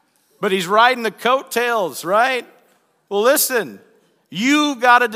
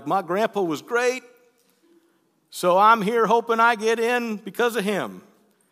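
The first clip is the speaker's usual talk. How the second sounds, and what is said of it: Put-on Southern accent. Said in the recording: “I don't know why I went southern accent there”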